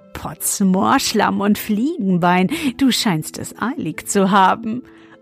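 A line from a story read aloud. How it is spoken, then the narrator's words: Laughing until choking. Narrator (German): er lachte, bis er sich verschluckte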